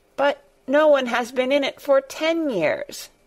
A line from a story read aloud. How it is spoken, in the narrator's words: cried Colin